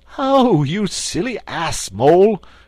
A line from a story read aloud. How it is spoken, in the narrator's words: cried Toad